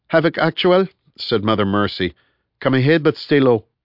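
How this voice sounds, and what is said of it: Terse Mauritanian accent. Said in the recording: “She spoke with a terse Mauritanian accent.”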